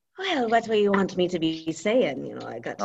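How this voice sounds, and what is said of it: Put-on Irish accent, pirate-like. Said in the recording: “Let's hear your best Irish accent. ... You got like a little pirate in there too. You got an Irish pirate.”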